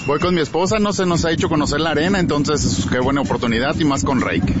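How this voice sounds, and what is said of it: Radio announcer-like voice. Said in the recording (Spanish): “tiene voz de locutor”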